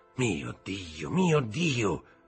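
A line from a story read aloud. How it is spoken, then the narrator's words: Murmur. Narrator (Italian): mormorò Villefort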